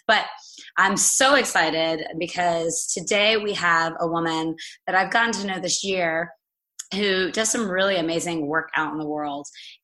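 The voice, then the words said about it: Husky voice from illness. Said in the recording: “apologize for my voice ... It's a little bit um, husky ... I accidentally took a sip of a friend's drink and then found out afterwards that she was sick”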